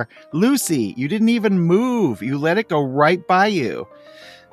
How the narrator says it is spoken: he yells out to her

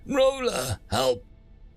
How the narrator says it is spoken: The little 80mm hullbore packing gunnery assistant squeaked

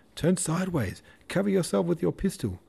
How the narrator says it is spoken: called Nesvitsky desperately

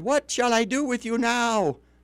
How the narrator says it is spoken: he cried

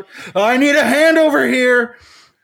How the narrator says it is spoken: Another surgeon breaks Tessa's stare as he yells out

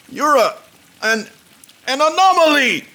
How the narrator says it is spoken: he shouted

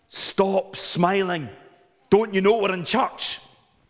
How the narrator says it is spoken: the mother sternly say to her son

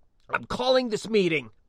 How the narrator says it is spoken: croaked out

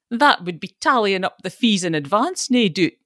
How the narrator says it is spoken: jeered

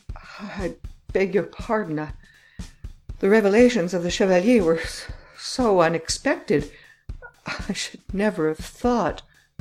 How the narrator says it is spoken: He said in a trembling voice

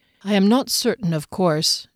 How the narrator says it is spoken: Derry continued in a low voice

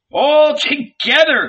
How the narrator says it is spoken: cried Jesus

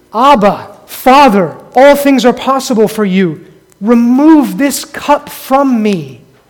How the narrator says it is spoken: he cried out to his Father, praying

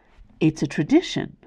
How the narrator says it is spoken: Marty replied

